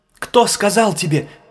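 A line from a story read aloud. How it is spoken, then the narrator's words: Shouted. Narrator (Russian): крикнула Велга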